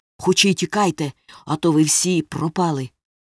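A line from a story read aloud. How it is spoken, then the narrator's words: Hoarse command. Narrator (Ukrainian): хрипко наказав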